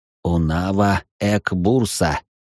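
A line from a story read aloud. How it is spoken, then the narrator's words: Hoarse rasp. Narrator (Russian): прохрипел ящер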